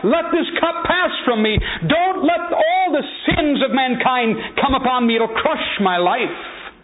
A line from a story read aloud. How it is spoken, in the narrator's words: He cried out